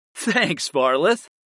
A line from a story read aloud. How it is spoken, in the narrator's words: laughed